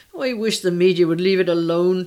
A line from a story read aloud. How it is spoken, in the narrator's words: Tracy wailed